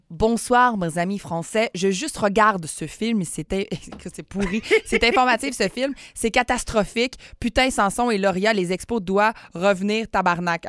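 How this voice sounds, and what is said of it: Imitates another person's accent. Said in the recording (French): “je vais essayer de le faire avec son accent”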